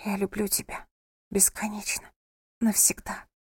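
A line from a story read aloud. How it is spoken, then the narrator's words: Whispering. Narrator (Russian): прошептала она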